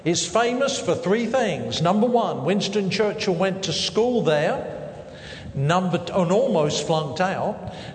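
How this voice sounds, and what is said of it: Southern English accent. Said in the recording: “I do have a southern accent. I was born and reared in southern England”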